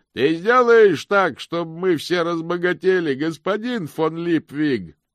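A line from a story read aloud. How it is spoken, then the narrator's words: Shouted out. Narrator (Russian): кто-то выкрикнул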